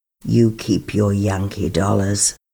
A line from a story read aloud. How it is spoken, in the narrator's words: She said icily